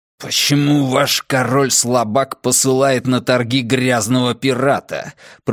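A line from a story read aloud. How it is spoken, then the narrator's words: Hissing, echoing. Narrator (Russian): прошипел фьерданский посол, и его слова эхом прокатились по собору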